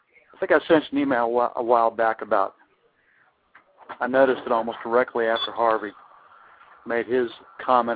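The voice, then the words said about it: Cajun and North Florida accent. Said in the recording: “That combination of Cajun and North Florida accent”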